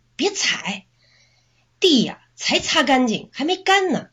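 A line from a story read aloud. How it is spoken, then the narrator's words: Rough shout. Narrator (Chinese): 男友就粗暴的喊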